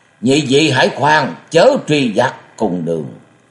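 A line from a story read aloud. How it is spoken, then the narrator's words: Loud calling out. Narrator (Vietnamese): Để Linh Thần Khất lớn tiếng gọi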